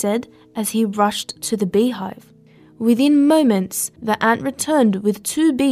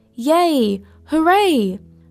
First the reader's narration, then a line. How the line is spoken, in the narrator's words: her colony shouted